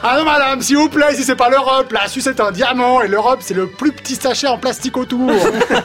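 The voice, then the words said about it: Put-on Swiss French accent. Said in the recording (French): “est-ce qu'il va prendre l'accent? J'ai pas été déçu ... c'est vraiment l'accent vaudois”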